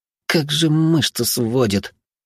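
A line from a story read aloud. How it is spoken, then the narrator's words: Strained hiss. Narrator (Russian): прошипел он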